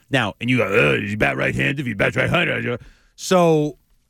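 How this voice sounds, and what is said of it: Imitates another person's voice. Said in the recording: “that is a very good impression of me”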